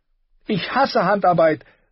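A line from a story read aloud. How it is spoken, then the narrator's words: Passionate shout. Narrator (German): rief sie voller Leidenschaft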